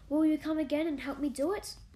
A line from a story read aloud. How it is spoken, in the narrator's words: Mary begged